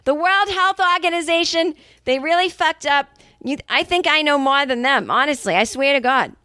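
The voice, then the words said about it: Angry Boston accent. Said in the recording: “the Boston accent comes out when she's angry”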